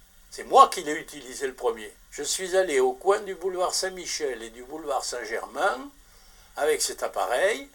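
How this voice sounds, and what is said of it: Toulouse accent, slightly gravelly voice. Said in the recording (French): “ton petit accent toulousain. Ta voix qui rocaille un peu.”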